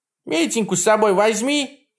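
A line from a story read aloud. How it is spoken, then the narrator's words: Old witch shouting after. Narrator (Russian): прокричал вслед баба-яга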